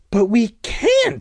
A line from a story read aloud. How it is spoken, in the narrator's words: I cried